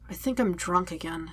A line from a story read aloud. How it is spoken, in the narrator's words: Zuko mumbles